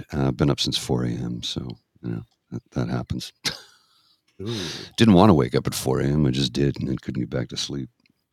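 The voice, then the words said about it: Tired-sounding voice. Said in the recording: “I'm tired, as I'm sure you can hear in my voice. ... Just a little tired.”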